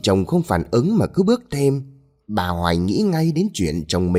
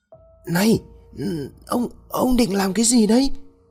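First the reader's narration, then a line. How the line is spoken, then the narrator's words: Frightened. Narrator (Vietnamese): Bà Hoài sợ hãi nói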